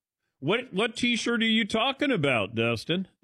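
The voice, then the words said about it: Put-on Southern accent, Brian Kelly. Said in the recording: “I did a Southern accent there. I went Brian Kelly on him.”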